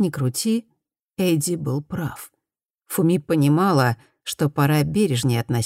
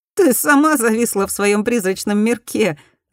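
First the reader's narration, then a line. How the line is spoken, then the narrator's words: Laughing. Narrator (Russian): засмеялась Фуми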